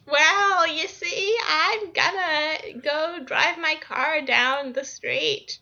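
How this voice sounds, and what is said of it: Anime-style old lady voice. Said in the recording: “the anime old lady voice”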